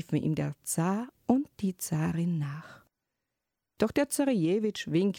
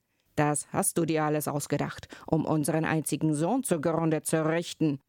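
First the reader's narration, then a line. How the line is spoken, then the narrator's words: Exclaiming. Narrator (German): rief er aus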